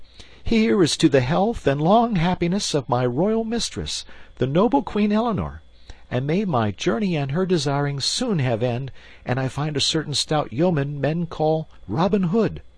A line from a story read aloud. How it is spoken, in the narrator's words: Young Partington cried